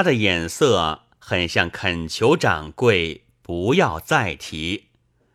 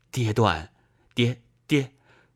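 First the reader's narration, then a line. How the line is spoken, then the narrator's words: Low voice. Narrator (Chinese): 孔乙己低声说道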